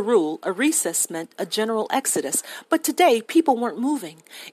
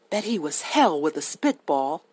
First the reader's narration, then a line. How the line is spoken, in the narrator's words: murmured Dill